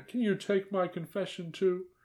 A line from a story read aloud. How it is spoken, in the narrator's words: whimpered the aunt